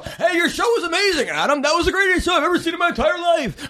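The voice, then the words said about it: Imitates another person's voice. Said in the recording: “that's a terrible impression, but that's exactly how he is”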